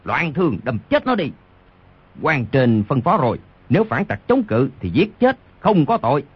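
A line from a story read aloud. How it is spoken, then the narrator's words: Roaring in pain and fury. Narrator (Vietnamese): Đoàn Thiên Đức trúng đòn đau quá, vô cùng tức giận gầm lên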